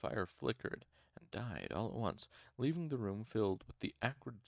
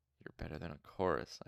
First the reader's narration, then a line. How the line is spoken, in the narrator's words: I said softly, trying to keep a straight face